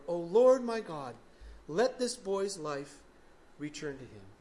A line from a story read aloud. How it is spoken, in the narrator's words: cried to the Lord